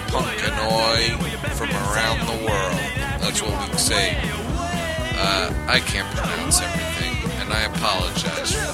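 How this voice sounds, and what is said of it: New York accent. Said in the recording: “I'm an American boy. I grew up in New York. ... That New York accent restricts the tongue. ... ethnically Italian family. That even adds a little more to it.”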